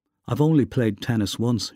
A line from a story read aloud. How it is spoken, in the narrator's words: she said